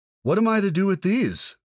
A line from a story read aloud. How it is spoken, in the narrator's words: he cried